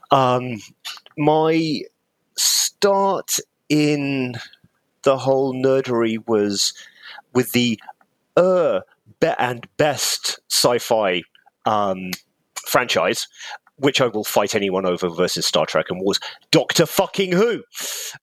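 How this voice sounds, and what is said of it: English accent. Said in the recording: “cunningly disguised with an English accent”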